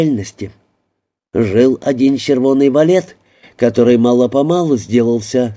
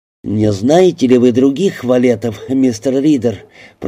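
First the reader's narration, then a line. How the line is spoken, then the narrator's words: Cold voice. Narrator (Russian): произнес пастор своим холодным голосом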